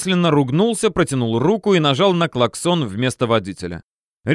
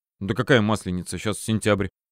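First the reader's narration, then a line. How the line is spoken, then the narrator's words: Puzzled mutter. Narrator (Russian): недоуменно пробормотал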